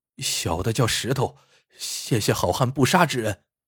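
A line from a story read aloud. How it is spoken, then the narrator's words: Man speaking hurriedly. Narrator (Chinese): 男子急忙说道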